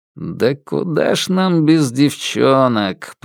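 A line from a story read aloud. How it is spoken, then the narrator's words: Grumble. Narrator (Russian): проворчал он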